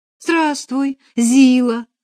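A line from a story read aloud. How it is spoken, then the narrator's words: Joyful greeting. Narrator (Russian): радостно приветствовала вошедшую Катя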